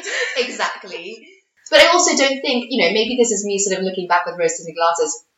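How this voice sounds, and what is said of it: English accent with slight Caribbean nuances. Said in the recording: “any Trinidadian can always hear slight little nuances beneath what is quite English now”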